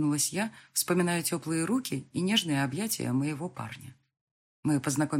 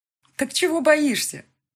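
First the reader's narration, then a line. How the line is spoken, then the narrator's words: Laughing. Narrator (Russian): рассмеялась подруга детства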